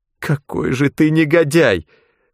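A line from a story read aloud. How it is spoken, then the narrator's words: Sobbing whisper. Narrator (Russian): всхлипнув, прошептала Вероника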